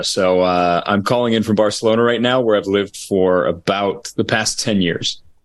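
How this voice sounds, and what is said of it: American accent. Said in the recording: “based on my accent, I am an American”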